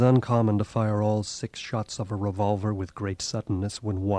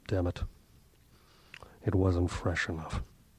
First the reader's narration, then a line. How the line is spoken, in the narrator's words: West muttered through his bandages